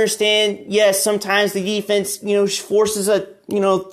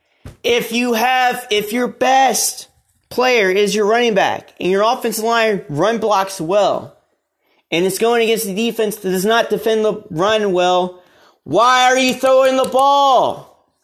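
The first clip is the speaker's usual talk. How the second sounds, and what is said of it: Yelling. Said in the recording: “I'm sorry for yelling”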